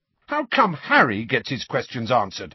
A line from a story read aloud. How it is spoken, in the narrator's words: said Fred angrily